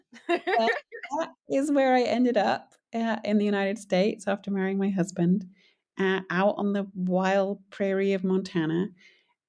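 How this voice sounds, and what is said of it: Non-American accent. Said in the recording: “as you can probably tell from my accent, I am not from Montana.”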